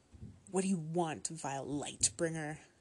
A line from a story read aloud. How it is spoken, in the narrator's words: she snarled at me